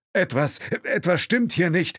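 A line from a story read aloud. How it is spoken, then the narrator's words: Driver calling in broken English. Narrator (German): rief der Chauffeur in holprigem Englisch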